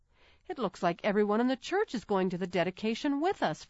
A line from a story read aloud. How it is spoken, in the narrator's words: Frances exclaimed